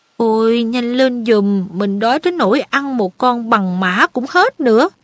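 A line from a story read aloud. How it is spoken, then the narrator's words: Whining. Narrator (Vietnamese): Ron rên rỉ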